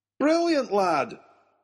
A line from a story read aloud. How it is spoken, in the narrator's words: cried the professor